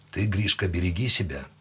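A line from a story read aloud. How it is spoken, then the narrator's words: Quiet. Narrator (Russian): сказал он тихо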